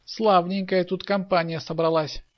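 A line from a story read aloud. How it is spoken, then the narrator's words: Laughing. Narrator (Russian): смеялся Михаил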